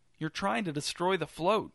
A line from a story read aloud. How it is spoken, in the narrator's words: said Channing, his voice quavering